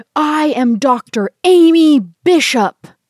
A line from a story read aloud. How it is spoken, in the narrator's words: she roars